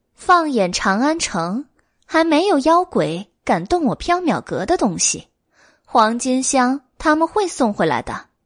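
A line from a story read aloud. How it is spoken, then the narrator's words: Grinning. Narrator (Chinese): 白姬咧齿一笑，说道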